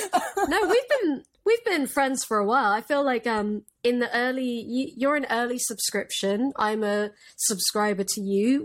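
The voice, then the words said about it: Classy-sounding accent. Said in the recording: “especially with your accent. It sounds so classy.”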